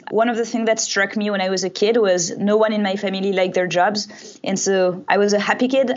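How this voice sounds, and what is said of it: Non-native English accent. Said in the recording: “You can probably hear my accent.”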